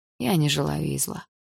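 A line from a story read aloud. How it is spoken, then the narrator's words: Sad smiling voice. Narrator (Russian): грустно улыбнулся Игорь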